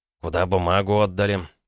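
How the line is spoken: Dry question. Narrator (Russian): сухо спросил Челищев

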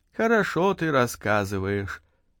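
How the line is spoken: Sighing. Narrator (Russian): вздохнула она

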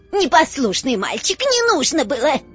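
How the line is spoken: Old woman's shriek. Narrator (Russian): взвизгнула старая Хепзиба

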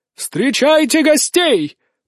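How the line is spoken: Booming over the music. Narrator (Russian): прогремел глашатай, перекрикивая музыку

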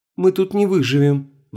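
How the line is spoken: Sighing. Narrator (Russian): вздохнула Света

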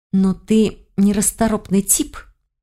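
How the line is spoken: Hissing. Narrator (Russian): зашипела

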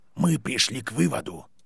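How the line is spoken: Serious tone. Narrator (Russian): серьезным тоном произнес директор

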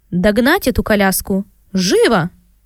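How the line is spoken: Strained but commanding order. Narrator (Russian): сдавленным от волнения, но властным голосом приказала

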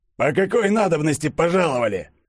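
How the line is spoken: Rude question. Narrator (Russian): грубо спросил Распутин

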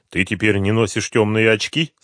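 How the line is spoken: Plain. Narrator (Russian): спросил Дронго

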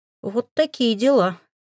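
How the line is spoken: Strained, breathless. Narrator (Russian): выдавил он, когда смог перевести дух

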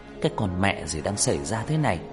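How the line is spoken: Muttering. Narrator (Vietnamese): Anh lẩm bẩm

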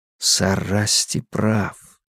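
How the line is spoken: Whisper. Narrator (Russian): прошептал я

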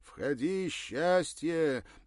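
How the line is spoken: Cheerful shout, eager to please. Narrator (Russian): весело прокричал по-русски, видимо, желая сделать приятное

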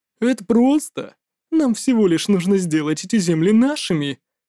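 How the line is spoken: Giggle. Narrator (Russian): хихикнул Сюэпао

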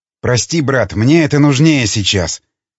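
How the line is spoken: Quiet speech. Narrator (Russian): тихо проговорил Штерн

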